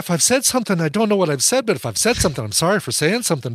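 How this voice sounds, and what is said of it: Put-on Irish accent, pretty good. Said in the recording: “your Irish accent is better than Daniel Craig's Southern accent. ... Pretty good. It's not bad.”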